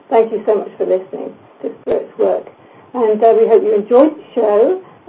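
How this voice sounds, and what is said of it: Hoarse, strained voice. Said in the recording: “I'm losing my voice. I don't know why, I haven't got a cold.”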